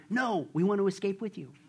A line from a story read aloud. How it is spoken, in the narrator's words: They leaned forward and whispered